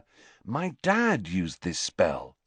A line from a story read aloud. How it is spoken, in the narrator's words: said Harry